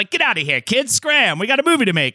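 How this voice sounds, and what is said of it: Put-on transatlantic accent. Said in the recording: “I don't know why everybody has a uh, mid-Atlantic, what is it called, transatlantic accent”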